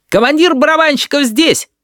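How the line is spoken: Mischievous shout, youngest child. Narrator (Russian): озорно выкрикнул самый младший, Данилка

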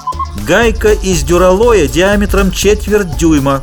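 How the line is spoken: Loud, clear statement. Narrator (Russian): громко и отчетливо произнес

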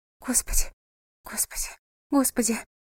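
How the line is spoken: Whisper. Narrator (Russian): прошептала она

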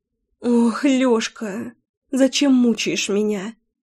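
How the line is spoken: Whimpering. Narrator (Russian): хныкала

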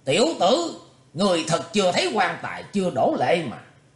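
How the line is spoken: Angry shout. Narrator (Vietnamese): quái diện trung niên không còn nhịn được nữa, hắn quát lên

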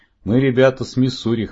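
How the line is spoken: Snort. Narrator (Russian): хмыкнул Джо

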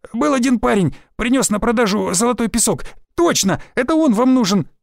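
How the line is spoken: Gleeful whine. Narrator (Russian): радостно проскулил Измаил

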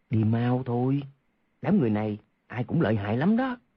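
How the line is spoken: Whisper. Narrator (Vietnamese): Quách Tĩnh nói khẽ vào tai Hoàng Dung

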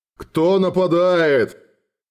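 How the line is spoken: Growled. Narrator (Russian): прорычал Гардсвок

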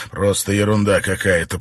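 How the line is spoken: Muttered. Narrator (Russian): пробормотал Армстронг

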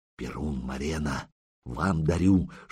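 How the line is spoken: Whisper. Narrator (Russian): шепнул Рогнеда

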